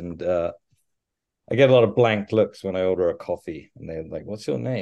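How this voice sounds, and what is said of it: English accent. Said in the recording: “I used to get called ... when I was in England, but then when I came over here, everybody started calling me ... or ... because they just didn't really understand my accent”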